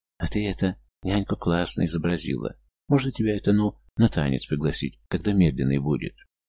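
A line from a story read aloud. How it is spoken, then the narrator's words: Timid boy's voice. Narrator (Russian): мальчик Костя робко сказал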